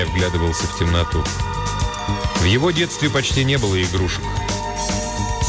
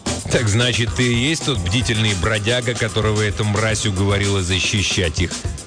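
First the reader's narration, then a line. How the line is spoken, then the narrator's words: Snorting. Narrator (Russian): хмыкнул голова на молнии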